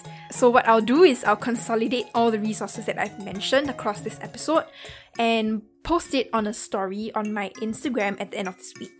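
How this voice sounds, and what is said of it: Singaporean English accent. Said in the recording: “my accent might be a bit difficult to understand, especially for non Singaporeans”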